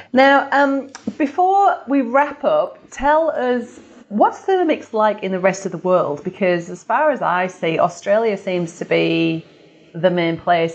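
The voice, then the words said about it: British accent. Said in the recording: “you can tell by my accent, from the UK”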